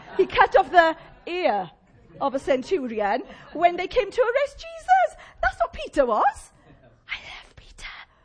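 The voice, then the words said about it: Welsh Llanelli accent. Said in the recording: “my Llanelli accent”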